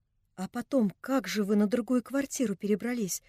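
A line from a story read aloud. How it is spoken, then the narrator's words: Question through quiet crying. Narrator (Russian): спросила Анна Андреевна, продолжавшая тихо плакать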